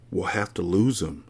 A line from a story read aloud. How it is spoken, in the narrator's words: Tim whispers back